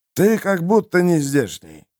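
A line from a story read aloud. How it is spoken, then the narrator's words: Gruff mutter. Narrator (Russian): буркнул трактирщик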